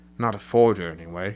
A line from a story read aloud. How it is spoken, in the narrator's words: he mutters